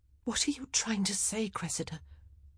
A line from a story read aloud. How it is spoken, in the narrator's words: Penelope had wanted her words to seem strong and forceful, but they came out as a whisper